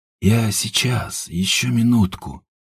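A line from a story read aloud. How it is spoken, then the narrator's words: Sleepy mumble. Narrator (Russian): пробормотал Степан, не открывая глаз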